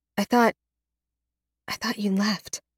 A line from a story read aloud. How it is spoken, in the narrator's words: I whisper